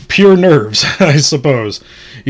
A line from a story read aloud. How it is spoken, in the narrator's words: he said aloud with a forced laugh